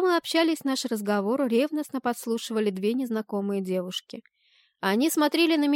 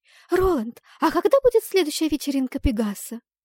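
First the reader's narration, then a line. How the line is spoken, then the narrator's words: Rapid sugary voice. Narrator (Russian): протараторила одна слащавым голоском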